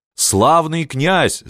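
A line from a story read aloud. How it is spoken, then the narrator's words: Yelling. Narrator (Russian): завопил Егорка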